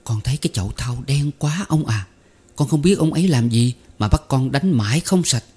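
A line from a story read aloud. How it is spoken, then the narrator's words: Wide-eyed whisper. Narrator (Vietnamese): thằng đại tớ trợn mắt trợn mũi thì thào với ông rằng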